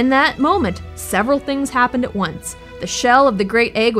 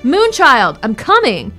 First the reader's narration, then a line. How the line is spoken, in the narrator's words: Close to fainting, he suddenly cried out